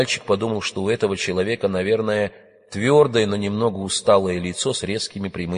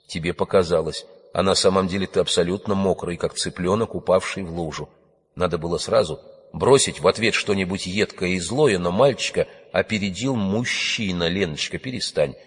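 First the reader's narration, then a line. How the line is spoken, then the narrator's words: Low husky voice. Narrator (Russian): сказал он хрипловатым низким голосом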